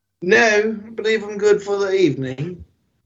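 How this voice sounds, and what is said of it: Put-on British accent. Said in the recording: “in your British accent”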